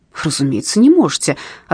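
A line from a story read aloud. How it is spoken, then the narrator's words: Angry reply. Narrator (Russian): ответил он сердито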